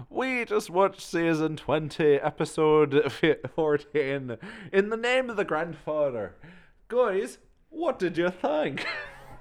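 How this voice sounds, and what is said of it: Attempted Irish accent. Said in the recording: “Let me try and do an Irish accent for real.”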